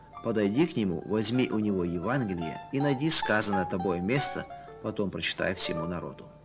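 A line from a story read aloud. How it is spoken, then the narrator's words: Whisper. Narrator (Russian): как будто кто-то шепнул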